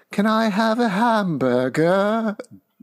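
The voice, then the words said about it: Peppa Pig British child accent. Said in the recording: “adopted a Peppa Pig accent”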